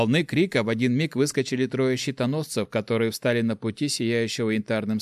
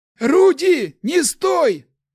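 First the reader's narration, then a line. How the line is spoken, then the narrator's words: Barked. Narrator (Russian): рявкнул на воришку Ларс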